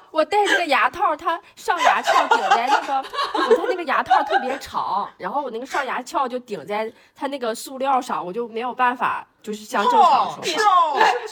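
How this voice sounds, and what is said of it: Taiwanese-sounding Mandarin accent. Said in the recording (Chinese): “有一种台湾。... 这次怎么这次怎么台湾腔？... 台湾话和大连话两种啊”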